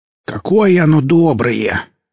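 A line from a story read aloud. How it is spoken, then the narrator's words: Grumbling. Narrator (Russian): проворчали за спиной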